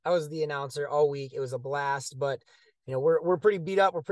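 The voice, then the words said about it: Hoarse, worn-out voice. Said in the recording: “as you can hear, my voice is shot.”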